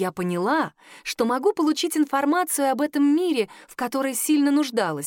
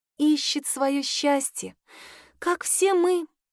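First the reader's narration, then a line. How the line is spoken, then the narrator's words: Tender, smiling. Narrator (Russian): нежно улыбнулась Клодина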